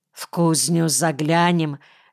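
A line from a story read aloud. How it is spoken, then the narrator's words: Hoarse question. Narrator (Russian): хрипло спросил Кирка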